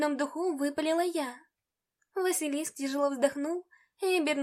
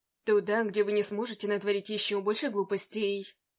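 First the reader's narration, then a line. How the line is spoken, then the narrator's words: Cold. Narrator (Russian): Холодно ответил он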